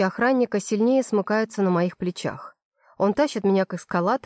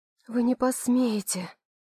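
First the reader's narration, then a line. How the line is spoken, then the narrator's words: Strangled whisper. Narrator (Russian): Хочется кричать, но выходит только шепот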